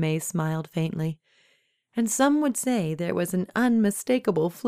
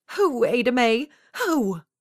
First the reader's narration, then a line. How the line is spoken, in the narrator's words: Coraline cried again, shaking her head in fear and confusion